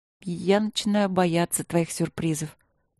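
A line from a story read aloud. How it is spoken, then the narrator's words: Mutter. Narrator (Russian): пробормотала я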